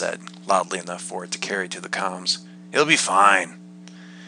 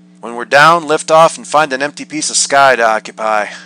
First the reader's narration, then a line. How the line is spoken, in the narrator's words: I said, my voice raised enough for Deirdre to catch it